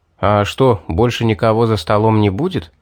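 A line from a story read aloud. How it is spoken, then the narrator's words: Plain. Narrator (Russian): спросил я Аннет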